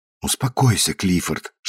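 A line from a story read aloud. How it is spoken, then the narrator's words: Whisper. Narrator (Russian): шепнула сестра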